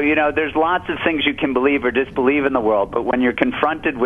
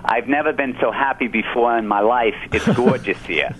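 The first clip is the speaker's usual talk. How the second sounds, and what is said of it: Put-on Brooklyn accent. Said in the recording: “your mother's from Brooklyn ... Sounds a little less spiritual with the accent”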